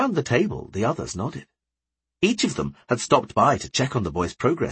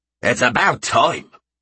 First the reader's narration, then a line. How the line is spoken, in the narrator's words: Krobeck growled